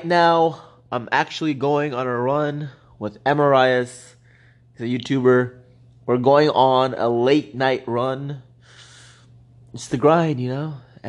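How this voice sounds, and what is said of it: Hoarse voice, losing voice. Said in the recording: “this is not how my voice is usually. Just losing my voice right now. Sounds weird.”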